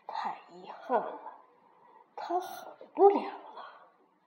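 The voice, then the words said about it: Quiet muttering voice. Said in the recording (Chinese): “小声地嘀咕了一句”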